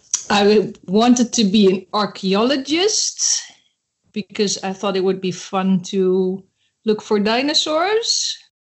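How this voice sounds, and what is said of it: Noticeable accent. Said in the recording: “I like your accent.”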